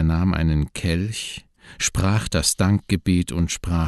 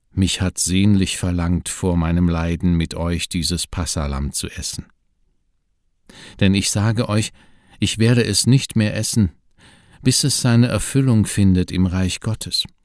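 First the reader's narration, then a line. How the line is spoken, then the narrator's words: Movingly sad voice. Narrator (German): sagte Jesus mit bewegend trauriger Stimme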